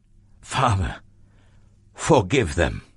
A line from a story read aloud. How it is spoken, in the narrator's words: Jesus gasped